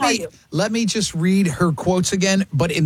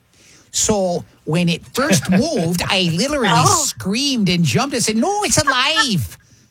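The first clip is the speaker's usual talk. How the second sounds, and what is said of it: Put-on Wisconsin accent. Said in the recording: “in the accent of where she lives ... from Wisconsin”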